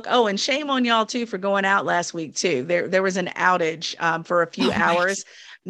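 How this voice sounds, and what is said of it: African American Southern Virginia accent. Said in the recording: “In my African American Southern Virginia accent”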